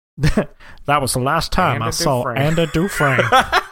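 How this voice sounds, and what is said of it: Impression like Family Guy's old man. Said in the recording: “really good impression ... You just sound like the old man and Family Guy.”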